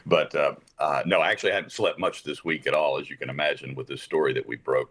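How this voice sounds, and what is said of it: Low, tired voice. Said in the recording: “my voice is down here is because I haven't slept yet”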